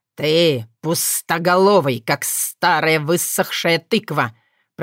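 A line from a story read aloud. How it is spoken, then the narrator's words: Father hissing. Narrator (Russian): прошипел отец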